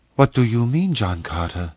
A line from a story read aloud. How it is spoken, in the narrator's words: she whispered